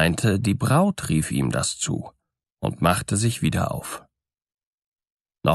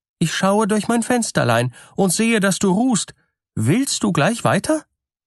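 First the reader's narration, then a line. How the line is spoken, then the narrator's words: Called out. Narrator (German): rief es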